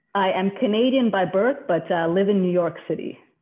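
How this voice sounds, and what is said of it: North American accent, slight New York twang. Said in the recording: “that's not a British accent by the sounds of it ... You got the New Yorker twang, have you? ... I've lost a little bit of the Canadian”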